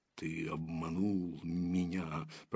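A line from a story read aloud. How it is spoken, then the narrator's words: Growl. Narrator (Russian): прорычал он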